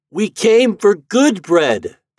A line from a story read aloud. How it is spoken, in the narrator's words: they cried